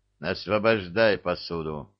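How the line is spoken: Grim command. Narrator (Russian): мрачно скомандовал он

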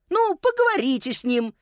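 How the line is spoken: Cheerful suggestion. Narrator (Russian): весело предложила Виола

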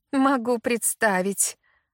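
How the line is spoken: Mother's snort. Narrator (Russian): фыркнула мама

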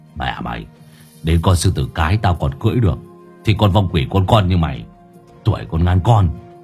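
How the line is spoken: Smirking mutter. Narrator (Vietnamese): Hải Nghẹo nhếch mép cười một cái lẩm bẩm

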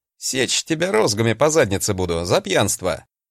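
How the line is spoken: Deadpan, then laughing. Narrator (Russian): с абсолютно серьезным лицом сказал я, а потом рассмеялся

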